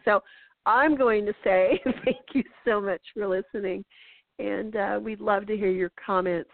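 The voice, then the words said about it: Hoarse voice. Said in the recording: “My voice is getting hoarse and I'm going to start coughing.”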